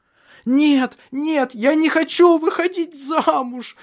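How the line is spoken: Shouting. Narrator (Russian): закричала Шарлотта

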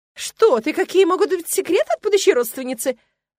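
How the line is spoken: Exclamation. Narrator (Russian): воскликнула Тилл

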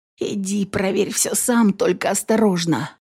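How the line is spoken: Slightly hoarse. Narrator (Russian): Чуть охрипшим голосом ответила она ему

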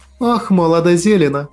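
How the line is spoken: Woman's heavy sigh. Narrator (Russian): Тяжело вздохнула женщина

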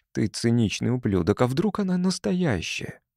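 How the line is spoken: Muttered aloud. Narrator (Russian): пробормотал вслух

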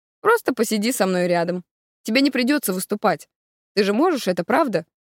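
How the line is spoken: Father, reasonable measured tone. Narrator (Russian): говорит отец самым рассудительным тоном

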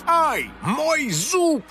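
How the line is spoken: Villain's pained yell. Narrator (Russian): завопил злодей

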